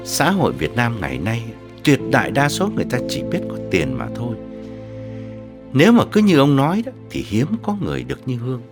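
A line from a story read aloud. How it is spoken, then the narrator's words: Suppressed sigh. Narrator (Vietnamese): Ông Vương nén tiếng thở dài bảo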